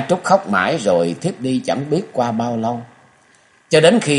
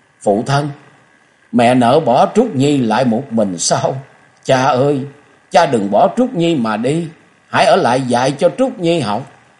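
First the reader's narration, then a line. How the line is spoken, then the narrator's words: Wailing. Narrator (Vietnamese): Nhã Trúc gào lên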